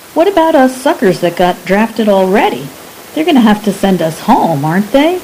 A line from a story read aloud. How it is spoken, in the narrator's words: Frank laughed